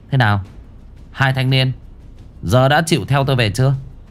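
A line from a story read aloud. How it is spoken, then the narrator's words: Cold. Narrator (Vietnamese): Cô Hân lạnh lùng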